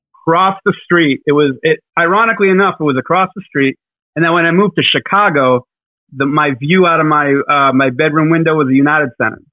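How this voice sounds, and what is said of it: Boston accent with a lisp. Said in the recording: “he's got that Boston accent with a lisp”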